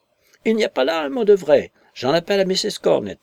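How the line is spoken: Flustered, dismayed exclamation. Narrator (French): s'exclama Agnès, toute déconfite

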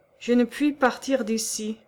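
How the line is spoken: Sighed, distressed. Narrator (French): soupira Johannes, désolé

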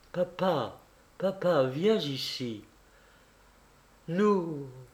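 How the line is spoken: Deeply moved faltering murmur. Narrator (French): murmura Ilyusha, très ému et sans avoir la force de continuer

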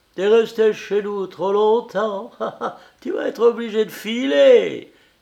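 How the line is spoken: Rapturous exclaim. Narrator (French): s'écriait-elle avec transport

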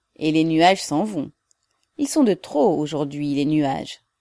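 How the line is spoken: Cheerful, still sleepy. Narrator (French): encore gros de sommeil dit gaiement

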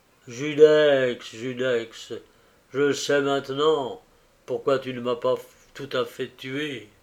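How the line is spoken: Cry while collapsing. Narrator (French): il s'écria, tout en s'effondrant sur le sol

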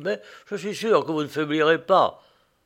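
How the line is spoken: Crushed stammering. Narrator (French): balbutiai-je d'une voix anéantie

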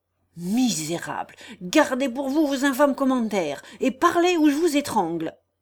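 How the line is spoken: Furious outburst. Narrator (French): s'écria Guillaume, hors de lui

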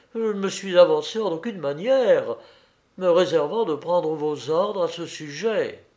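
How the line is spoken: Exclaimed. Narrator (French): s'écria Gobert Ali

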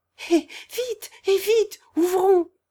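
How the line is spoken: Affectionate exclamation. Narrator (French): s'écria-t-elle en le saluant affectueusement

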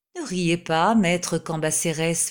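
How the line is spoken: Plain. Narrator (French): me dit-il

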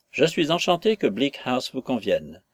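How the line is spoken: Plain. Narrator (French): nous dit M

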